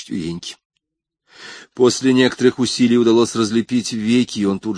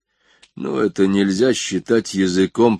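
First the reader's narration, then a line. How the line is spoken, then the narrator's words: Muttered. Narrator (Russian): пробурчал Изон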